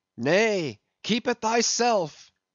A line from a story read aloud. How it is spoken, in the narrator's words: cried Gabriel to Ahab